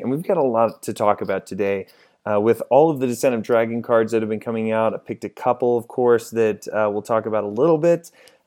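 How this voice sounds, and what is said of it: Hoarse voice from a cold. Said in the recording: “dramatically handicapped in my vocal box ... the end of this cold ... give my voice some more time to heal”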